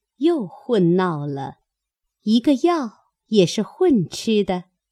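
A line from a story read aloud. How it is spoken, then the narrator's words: Laughing. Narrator (Chinese): 宝钗笑道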